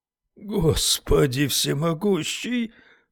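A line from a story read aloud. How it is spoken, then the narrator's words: Breathless gasp. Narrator (Russian): выдохнул Уитни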